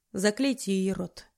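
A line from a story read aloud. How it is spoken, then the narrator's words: Frighteningly calm tone. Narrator (Russian): тем же пугающе спокойным тоном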